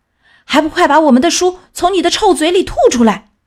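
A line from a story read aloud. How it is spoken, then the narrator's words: Angry shout. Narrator (Chinese): 管理员愤怒的大喊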